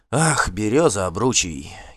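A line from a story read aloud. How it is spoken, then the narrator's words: Weary sigh. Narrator (Russian): Гельт вздохнул, устав от бесполезного спора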